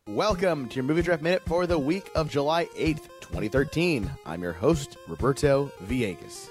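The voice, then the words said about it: Worn-out, hoarse, slightly drunk-sounding voice. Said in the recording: “I am exhausted and my voice is shot ... sound a little drunk ... He sounds a little boozy.”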